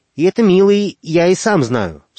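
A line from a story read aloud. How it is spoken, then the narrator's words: Stern old man interrupting. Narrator (Russian): строго перебил его дед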